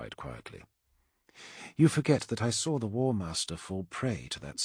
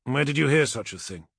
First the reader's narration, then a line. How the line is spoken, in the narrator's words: Amon asked sharply